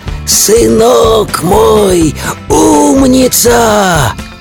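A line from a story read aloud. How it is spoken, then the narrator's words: Wailing, wolf. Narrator (Russian): А волк ... завопил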